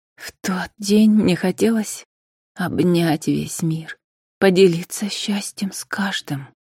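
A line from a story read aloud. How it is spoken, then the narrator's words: Quiet. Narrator (Russian): тихо добавила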